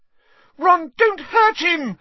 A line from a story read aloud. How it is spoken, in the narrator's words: squealed Hermione